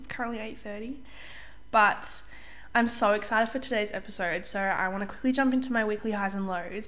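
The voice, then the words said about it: Slightly off voice, recovering from cold. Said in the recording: “I apologize if my voice sounds a little bit funny. I'm just getting over a cold that I had last week. So my voice is still a bit funny when it's kind of early in the morning”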